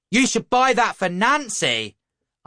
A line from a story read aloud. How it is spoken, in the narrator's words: I shouted